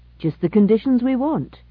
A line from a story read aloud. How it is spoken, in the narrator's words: exclaimed Gibson